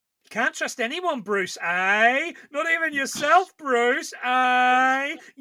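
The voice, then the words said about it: Semi-passable put-on Australian accent. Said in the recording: “I can do a semi-passable Australian accent.”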